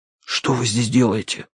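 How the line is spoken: Whispered. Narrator (Russian): прошептал я

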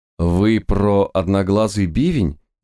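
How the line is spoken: Uncertain snort. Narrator (Russian): неуверенно хмыкнул

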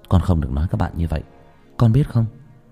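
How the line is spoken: Soft whisper. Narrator (Vietnamese): Ghé sát tai nó, tôi khẽ nói

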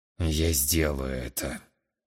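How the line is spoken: Through gritted teeth. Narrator (Russian): процедил сквозь зубы глава

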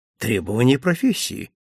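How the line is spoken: Dry, restrained embarrassment. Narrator (Russian): сухо ответил я, стараясь побороть свое смущение

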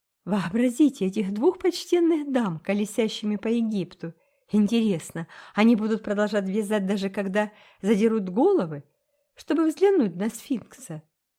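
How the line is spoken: Laughing. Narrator (Russian): засмеялась Присцилла

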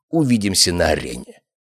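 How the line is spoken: Growled. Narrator (Russian): прорычал Алистер

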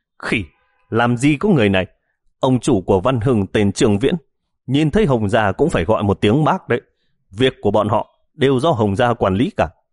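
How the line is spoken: Shouting. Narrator (Vietnamese): Gã gầy hét lên

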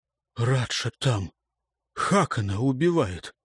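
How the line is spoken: Hoarse strained speech. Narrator (Russian): не отнимая от горла руки, сипло выговорил Карел

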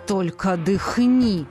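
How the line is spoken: Hissing. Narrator (Russian): раздалось шипение

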